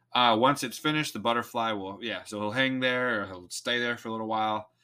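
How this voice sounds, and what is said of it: Slipping into a Texan accent. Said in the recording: “I said that with an accent, didn't I? ... I'm getting Texan over here.”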